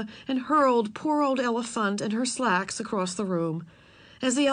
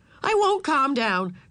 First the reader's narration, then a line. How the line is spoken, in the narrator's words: shouted Ramona, bursting into tears